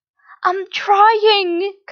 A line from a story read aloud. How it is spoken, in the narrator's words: Kamurai cried